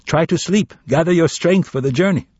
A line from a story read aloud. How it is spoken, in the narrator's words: Someone called out